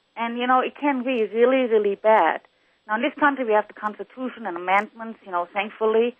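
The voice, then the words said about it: Noticeable non-local accent. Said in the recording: “I have lived all over the world as an army brat and went to other school systems in the world. That's why I have the accent.”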